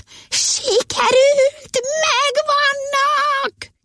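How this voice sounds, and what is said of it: High falsetto shriek. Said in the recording (Hungarian): “magas fejhangon nagyot rikoltott”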